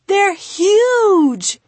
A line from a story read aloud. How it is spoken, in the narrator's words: he exclaimed